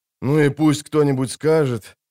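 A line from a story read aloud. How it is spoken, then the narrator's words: Heavy sigh. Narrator (Russian): тяжело вздохнул он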